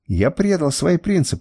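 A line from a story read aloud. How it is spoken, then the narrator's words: Exclaimed. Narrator (Russian): воскликнул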